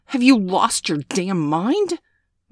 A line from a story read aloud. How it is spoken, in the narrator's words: Miss Angeli growled